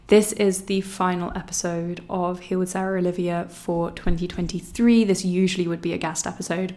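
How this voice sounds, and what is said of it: Slightly scratchy voice. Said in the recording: “I've been quite under the weather for the last week or so ... My voice is still a little bit scratchy as it was last week”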